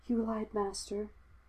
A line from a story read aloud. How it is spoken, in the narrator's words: he whispered